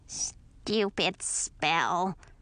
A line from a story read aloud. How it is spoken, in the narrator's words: grumbled a familiar voice